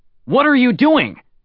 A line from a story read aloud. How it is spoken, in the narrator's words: Levine shouted